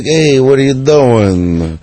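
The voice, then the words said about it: Brash Brooklyn character voice. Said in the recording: “the voice used to be more like that ... Brooklyn accent ... Dice was more like”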